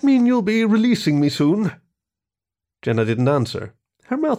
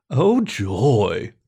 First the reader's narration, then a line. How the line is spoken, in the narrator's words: the bear grumbled